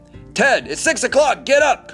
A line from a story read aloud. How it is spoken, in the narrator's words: Curry shouts